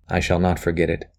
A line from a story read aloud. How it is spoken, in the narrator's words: he said softly